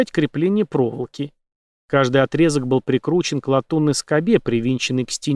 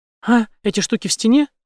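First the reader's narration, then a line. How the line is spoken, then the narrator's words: High trembling voice. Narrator (Russian): высоким и дрожащим голосом ответила та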